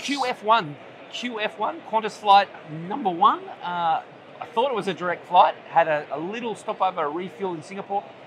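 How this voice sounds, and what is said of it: Australian accent. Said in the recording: “The accent hasn't come through. People don't know that I am from a different part of the world ... In Melbourne. In Australia”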